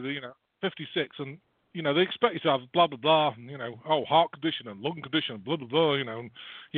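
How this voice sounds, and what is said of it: British accent. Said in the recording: “even though I've got a oh, British accent.”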